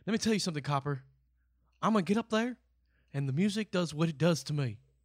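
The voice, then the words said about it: Imitates another person's voice, poorly. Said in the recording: “Is that your Elvis impression? ... That's terrible. ... Awful. ... that's the best Elvis Presley you're going to ever hear.”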